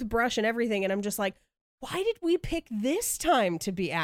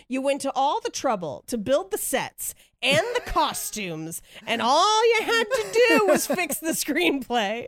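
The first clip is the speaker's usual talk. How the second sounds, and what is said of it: Slightly elevated imitation of her mother. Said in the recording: “your ... mom impression ... my mother sounds exactly like me with less swearing. So my impression of my mother is only just slightly elevated, but still me”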